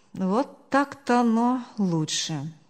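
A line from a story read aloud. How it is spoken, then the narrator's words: Relieved sigh. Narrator (Russian): Успокоенно вздохнул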